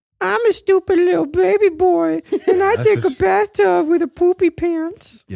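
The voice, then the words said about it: Imitates another person's voice. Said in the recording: “my Miles impression”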